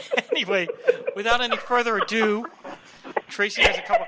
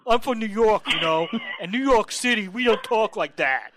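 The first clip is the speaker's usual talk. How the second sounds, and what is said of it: Convincing put-on New York accent. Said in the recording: “that was pretty spot on for a New York accent.”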